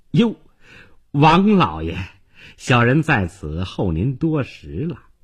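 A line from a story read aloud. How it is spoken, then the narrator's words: Fawning, ingratiating. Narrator (Chinese): 换上一副笑脸，哈巴狗似的说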